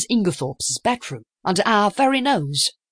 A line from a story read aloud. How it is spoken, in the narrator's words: I cried